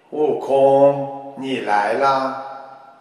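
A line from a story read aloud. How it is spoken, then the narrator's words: Flat calm remark. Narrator (Chinese): 观世音菩萨 淡淡的说了一句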